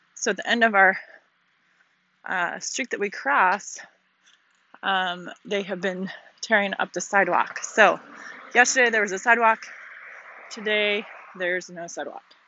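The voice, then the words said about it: Out of breath after running. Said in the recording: “So I just finished up running if I'm out of breath.”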